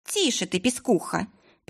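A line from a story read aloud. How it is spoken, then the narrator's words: Sharp scolding. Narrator (Russian): прикрикнула хозяйка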